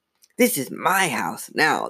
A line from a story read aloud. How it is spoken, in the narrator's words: the dummy rasped